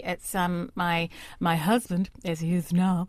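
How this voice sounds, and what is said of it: Briefly puts on a silly voice. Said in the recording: “I don't know why I did that voice, that was awful”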